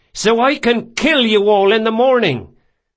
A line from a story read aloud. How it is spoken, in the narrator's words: hollered Ezri